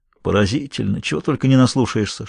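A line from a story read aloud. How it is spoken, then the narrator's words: Whisper. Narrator (Russian): шепнул Томми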